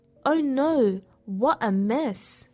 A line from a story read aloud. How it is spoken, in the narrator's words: she exclaimed